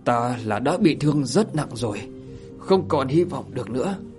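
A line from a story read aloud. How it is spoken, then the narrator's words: Trembling voice. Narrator (Vietnamese): Thiên Lôi Thủ run rẩy mà nói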